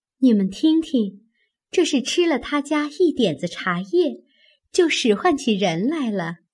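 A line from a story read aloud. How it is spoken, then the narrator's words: Laughing. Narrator (Chinese): 黛玉笑道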